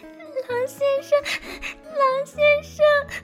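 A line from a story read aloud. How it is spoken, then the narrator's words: Crying out. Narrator (Chinese): 他哭喊着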